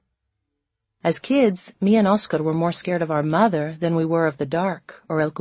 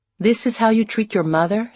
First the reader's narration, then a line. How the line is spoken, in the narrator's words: she cried